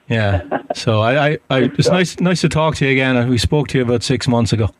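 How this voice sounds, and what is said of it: Irish accent. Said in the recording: “I'm from Ireland, you can probably tell from the accent... I can absolutely hear that... that accent”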